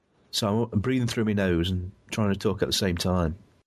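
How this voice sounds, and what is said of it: Congested, very deep voice. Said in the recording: “A cold. ... I'll probably come off in the recording very, very bassy. I'll be doing my Barry White impression.”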